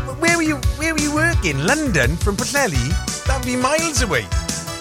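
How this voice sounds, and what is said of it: Usual voice. Nothing is said of it.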